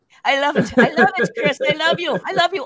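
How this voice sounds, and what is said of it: Put-on Irish accent. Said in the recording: “Oh, I kind of did it... the Irish accent”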